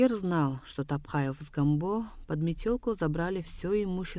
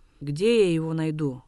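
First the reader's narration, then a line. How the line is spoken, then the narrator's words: Angry. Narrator (Russian): сердито сказал он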